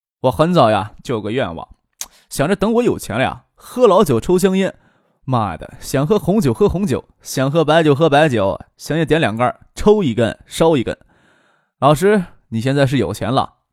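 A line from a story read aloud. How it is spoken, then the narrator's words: Laughing. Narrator (Chinese): 张克笑着说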